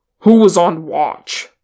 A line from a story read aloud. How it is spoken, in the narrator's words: Thorin snapped